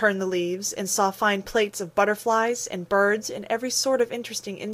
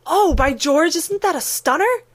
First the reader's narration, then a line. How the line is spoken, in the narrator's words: said the oldest boy of the party